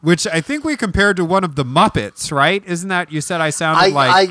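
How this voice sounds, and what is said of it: Usual voice. Nothing is said of it.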